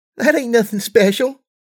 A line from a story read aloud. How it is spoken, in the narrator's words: she giggled